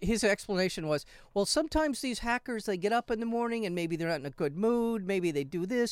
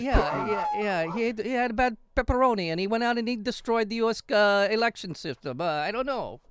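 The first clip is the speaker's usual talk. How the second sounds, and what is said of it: Put-on Russian Godfather-like accent. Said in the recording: “That's your Russian accent? ... It's a little bit of Godfather”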